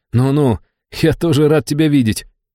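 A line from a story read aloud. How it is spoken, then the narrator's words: Laughing. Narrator (Russian): рассмеялся я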